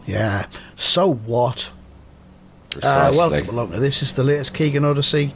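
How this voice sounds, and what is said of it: Hoarse, strained voice. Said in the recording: “My voice is still a little bit wrecked”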